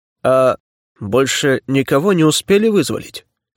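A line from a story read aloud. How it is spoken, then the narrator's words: Wooden flat voice. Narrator (Russian): деревянным голосом спросил Левашов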